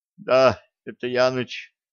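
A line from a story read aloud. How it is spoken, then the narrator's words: Weak drowsy voice. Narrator (Russian): слабым голосом подтвердил начинающий соловеть Нюрнберг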